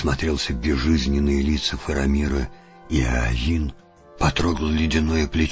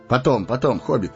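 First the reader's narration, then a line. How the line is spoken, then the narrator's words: Hurried. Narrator (Russian): торопливо сказал Арагорн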